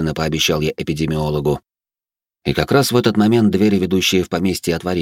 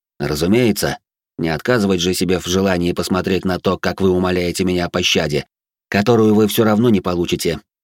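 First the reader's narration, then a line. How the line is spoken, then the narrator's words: Cold tone. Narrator (Russian): произнес я холодным тоном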